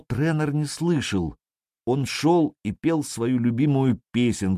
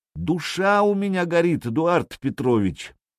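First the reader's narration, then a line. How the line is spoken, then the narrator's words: Delirious shout. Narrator (Russian): Гущин опять забылся, крикнул ему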